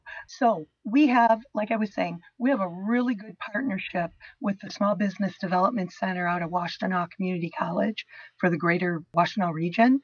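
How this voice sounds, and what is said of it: Hoarse, strained voice. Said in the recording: “I've been battling laryngitis since December ... I lost my voice completely in February”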